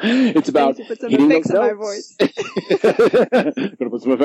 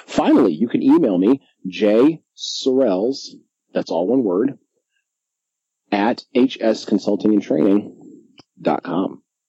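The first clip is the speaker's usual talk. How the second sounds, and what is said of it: Polished radio announcer voice. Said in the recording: “You just got such a radio voice. Like, you're so ready for the podcast.”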